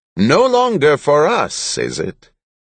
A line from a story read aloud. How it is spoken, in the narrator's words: He chuckled